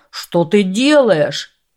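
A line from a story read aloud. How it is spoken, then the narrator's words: Merchant screaming. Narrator (Russian): завопил торговец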